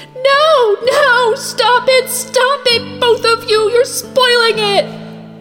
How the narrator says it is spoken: Sansa was shrieking

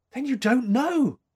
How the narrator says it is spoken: gasped

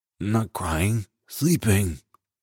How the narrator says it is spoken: she mumbles into her pillow

